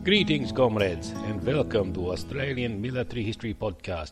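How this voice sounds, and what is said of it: Deliberately bad put-on Russian accent. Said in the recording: “apologies for the shocking, terrible Russian accent. ... my usual soothing tones”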